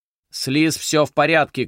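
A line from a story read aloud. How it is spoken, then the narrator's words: Shouting. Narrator (Russian): крикнул Фредерик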